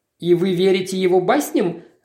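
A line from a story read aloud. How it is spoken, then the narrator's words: Laughing. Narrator (Russian): рассмеялся Максвелл, обращаясь к полицейскому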